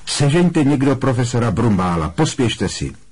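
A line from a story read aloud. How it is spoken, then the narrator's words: Sudden raised-voice command. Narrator (Czech): náhle přikázal zvýšeným hlasem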